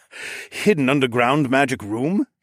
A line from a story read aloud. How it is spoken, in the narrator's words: He chuckled